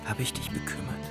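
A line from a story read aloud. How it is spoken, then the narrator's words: Whispered. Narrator (German): wisperte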